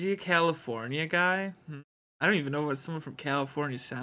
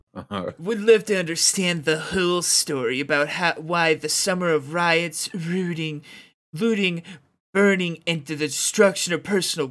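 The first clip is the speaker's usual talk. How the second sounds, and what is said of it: Reads in a bro voice. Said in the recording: “Can you read this like a bro?”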